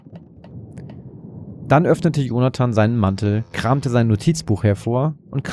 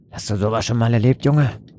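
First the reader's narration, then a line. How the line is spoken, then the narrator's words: Gruff grunt, sailor. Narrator (German): grunzte einer der Seemänner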